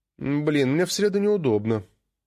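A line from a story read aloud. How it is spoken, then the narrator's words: Sighing. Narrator (Russian): вздохнула Алина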